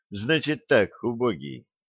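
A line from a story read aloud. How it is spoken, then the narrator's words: Gentle, affectionate. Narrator (Russian): ласково сказал Питер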